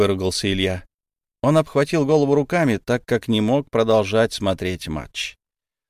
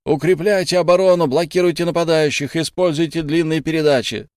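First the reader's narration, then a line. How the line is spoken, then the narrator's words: Coach shouting from sideline. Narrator (Russian): снова закричал главный тренер с боковой линии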